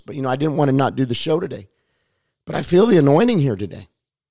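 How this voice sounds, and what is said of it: Raspy, hoarse voice. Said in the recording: “raspy voice from preaching all weekend ... I'm sorry for my voice. I'm sorry for my hoarseness.”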